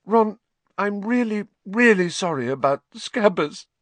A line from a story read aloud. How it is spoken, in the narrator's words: she sobbed